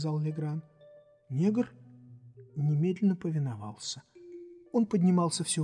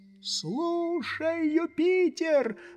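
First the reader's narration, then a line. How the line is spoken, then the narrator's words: Shout. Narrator (Russian): закричал Легран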